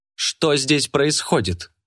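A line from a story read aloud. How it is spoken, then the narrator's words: Loud, sharp, aristocratic, fearless. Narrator (Russian): Громко, резко, по-аристократически, без страха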